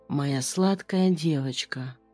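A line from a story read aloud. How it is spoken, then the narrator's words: Barely audible rustling whisper. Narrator (Russian): Прошелестел одними губами, едва слышно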